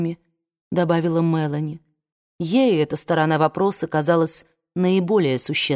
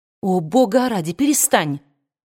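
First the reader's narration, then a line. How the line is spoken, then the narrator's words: Exclaiming woman. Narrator (Russian): воскликнула Скарлетт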